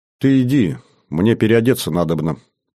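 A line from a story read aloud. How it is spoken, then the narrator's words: Almost calm female voice. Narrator (Russian): почти спокойно сказала красавица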